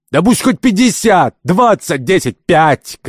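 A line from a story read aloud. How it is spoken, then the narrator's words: Irritated shouting. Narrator (Russian): кричал господин Кирабан, которого противоречие, как обычно, начинало раздражать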